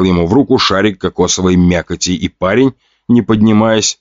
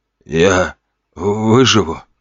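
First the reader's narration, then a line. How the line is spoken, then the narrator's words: Trembling question. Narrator (Russian): спросил тот дрожащим голосом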